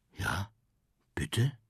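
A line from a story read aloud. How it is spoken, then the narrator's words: Almost whispering. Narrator (German): Er flüstert beinahe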